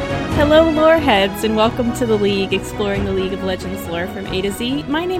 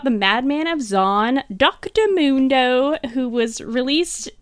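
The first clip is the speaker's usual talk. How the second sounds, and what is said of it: Put-on British accent. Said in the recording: “I don't know why I did with a British accent, I'm really sorry”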